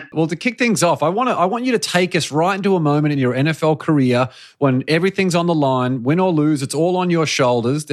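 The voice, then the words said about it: Speaks with a distinctive accent. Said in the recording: “You know how much I love your accent.”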